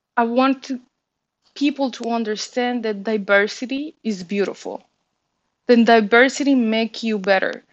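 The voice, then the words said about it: Latina-accented English. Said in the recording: “I stopped hiding my accent”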